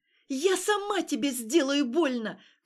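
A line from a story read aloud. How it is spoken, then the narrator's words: Shout. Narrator (Russian): крикнула она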